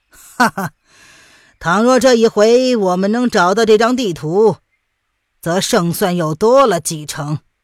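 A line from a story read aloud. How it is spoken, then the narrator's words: Incredulous laugh, long sigh. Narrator (Chinese): 范定峰似是不信的一笑，旋即长叹道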